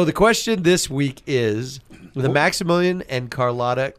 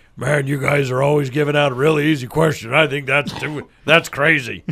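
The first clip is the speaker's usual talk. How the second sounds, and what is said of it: Imitates another person's voice. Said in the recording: “That's my Don Coleman imitation. ... That's so, pretty good.”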